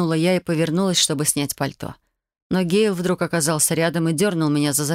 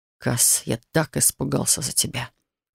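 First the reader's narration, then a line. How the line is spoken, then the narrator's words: Hoarse whisper. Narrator (Russian): хрипло прошептал он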